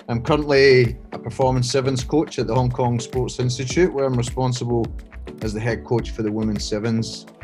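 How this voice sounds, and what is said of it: Scottish accent. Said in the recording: “I grew up in Scotland, uh, as you can tell by the accent”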